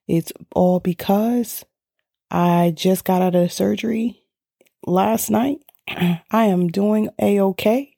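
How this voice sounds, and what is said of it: Slightly raspy, subdued voice. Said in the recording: “Today, I might sound a little subtle. My voice may be a little raspy.”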